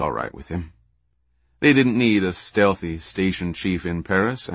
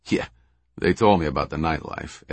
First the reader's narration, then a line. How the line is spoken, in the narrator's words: Ed chuckled